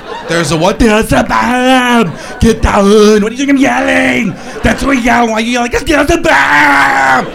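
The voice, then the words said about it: Yelling imitation of another person's voice. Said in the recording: “You ever hear Schwarzenegger yell though? ... He starts screaming and his face gets all contorted. You can't understand him. ... such a big guy has such a funny voice”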